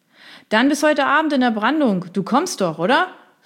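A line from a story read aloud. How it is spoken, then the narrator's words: Loud call over surf. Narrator (German): rief er ihm laut durch die Brandung zu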